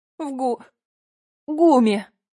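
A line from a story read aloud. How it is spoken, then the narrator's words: Girl's sob. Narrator (Russian): девушка всхлипнула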